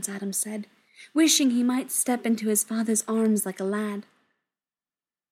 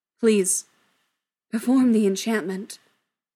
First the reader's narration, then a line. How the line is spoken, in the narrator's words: his father said, his voice thick with emotion